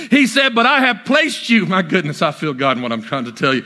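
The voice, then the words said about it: Yelling preacher. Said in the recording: “why are you yelling? ... I can't hold it in anymore”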